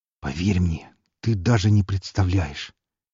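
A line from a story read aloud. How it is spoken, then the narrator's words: Quiet. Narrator (Russian): негромко сказал Виктор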